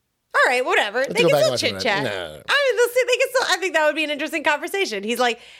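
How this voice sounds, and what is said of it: Usual voice. Nothing is said of it.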